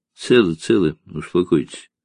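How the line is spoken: Tired, relieved. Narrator (Russian): устало проговорил Карташ, чувствуя, как отпускает

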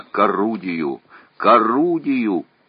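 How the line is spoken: Hoarse, wheezing. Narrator (Russian): хрипя

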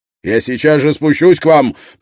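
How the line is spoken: Shouted. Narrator (Russian): прокричал Строн

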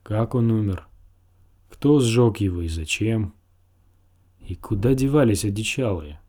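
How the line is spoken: Sighing. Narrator (Russian): Он вздохнул

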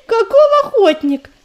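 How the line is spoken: Laughing squirrel. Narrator (Russian): засмеялась белка

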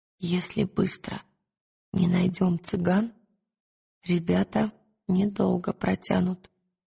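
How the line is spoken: Whisper. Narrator (Russian): шепнула она Пантелеймону

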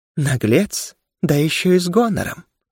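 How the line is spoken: Purring, predatory female smirk. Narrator (Russian): усмехнулся женский голос, чем-то похожий на голос Керы, такой же мурлыкающий и хищный

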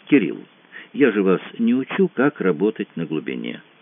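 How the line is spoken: Very soft, mild reproach. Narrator (Russian): сказал Франсуа предельно мягко, но все равно это прозвучало легкой недвусмысленной выволочкой

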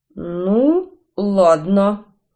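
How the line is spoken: Muttered through teeth. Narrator (Russian): процедил Гарри

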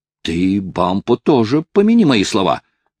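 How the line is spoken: Shout. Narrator (Russian): крикнул Хайрем

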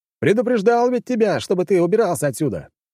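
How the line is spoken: Loud shout. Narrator (Russian): громко закричал

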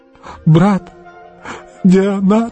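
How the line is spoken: Sob. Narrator (Russian): всхлипнул он

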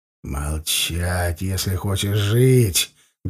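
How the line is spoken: Menacing whisper. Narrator (Russian): грозно прошептал я

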